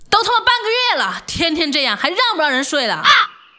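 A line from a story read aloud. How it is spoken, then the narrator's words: Angry shout. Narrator (Chinese): 楼下邻居就敲门怒喊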